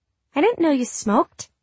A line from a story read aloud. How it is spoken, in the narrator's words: she said, her voice embarrassingly high